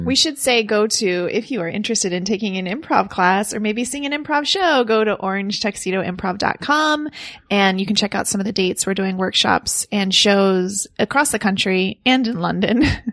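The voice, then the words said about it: Polished professional announcer voice. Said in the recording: “You suddenly became so much more professional. ... I had my announcer voice. ... announcer voice.”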